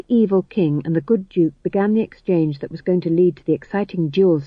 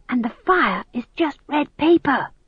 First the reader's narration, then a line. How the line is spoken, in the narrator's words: whispered McGrath